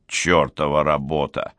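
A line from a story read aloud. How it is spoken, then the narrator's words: Grumbling. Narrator (Russian): ворчал Гуннар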